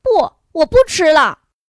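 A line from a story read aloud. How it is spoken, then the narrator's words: Mother calling after. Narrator (Chinese): 妈妈朝他身后喊道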